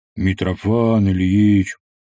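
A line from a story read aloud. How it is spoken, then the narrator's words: Deep bass voice. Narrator (Russian): пробасил он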